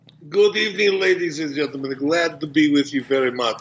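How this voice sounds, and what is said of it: Put-on Russian accent. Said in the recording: “Dave Meltzer might think that you're British. on that accent. ... that was a Russian accent.”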